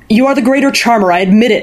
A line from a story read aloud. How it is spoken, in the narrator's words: he shouted